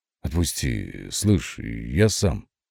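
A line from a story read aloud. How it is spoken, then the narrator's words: Through clenched teeth. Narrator (Russian): Процедил я сквозь стиснутые зубы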